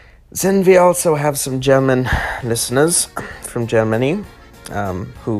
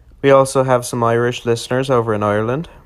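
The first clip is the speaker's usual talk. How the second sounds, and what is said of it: Put-on Irish accent. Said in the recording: “upon hearing my Irish accent”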